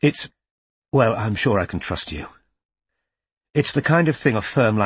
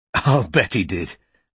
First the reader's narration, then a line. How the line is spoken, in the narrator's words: said Bristow with a scornful laugh